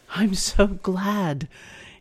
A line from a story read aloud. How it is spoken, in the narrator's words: replied breathlessly